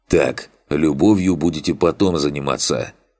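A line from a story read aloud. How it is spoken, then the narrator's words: Grunt. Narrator (Russian): хмыкнул Фантик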